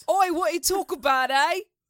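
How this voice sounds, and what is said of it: Put-on British accent. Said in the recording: “have you heard my British accent? This is way more accurate. ... I think your Queens accent is better than your British accent.”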